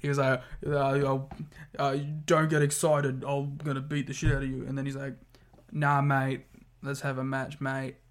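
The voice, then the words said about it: Put-on Australian accent, struggling. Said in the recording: “Giving you an excuse to continue an Australian accent ... I like that you're struggling with an Australian accent.”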